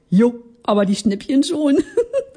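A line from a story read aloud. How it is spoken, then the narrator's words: Giggling. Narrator (German): kicherte ich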